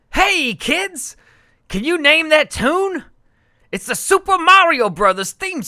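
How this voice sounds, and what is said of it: Put-on New York Italian accent. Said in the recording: “his Italian, his like... New York Italian accent... The pizza accent?”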